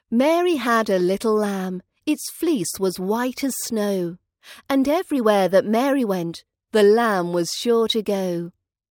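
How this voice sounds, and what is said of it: British accent. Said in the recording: “For more British accent training”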